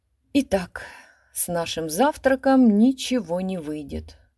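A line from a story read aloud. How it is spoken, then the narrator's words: Sigh. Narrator (Russian): вздохнул Пьер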